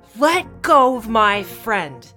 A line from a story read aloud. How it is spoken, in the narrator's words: He screams